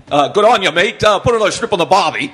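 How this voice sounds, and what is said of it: Put-on Australian accent. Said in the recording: “Is that an Australian accent? I don't even know.”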